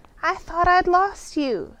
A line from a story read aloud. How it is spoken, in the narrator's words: cried